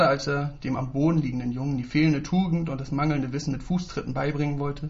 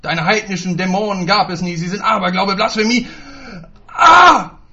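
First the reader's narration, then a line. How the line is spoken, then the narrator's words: Roaring. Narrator (German): brüllte er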